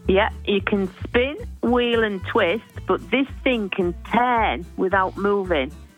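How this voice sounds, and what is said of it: Riddle read in put-on accent. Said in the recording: “Can you do it without the accent?”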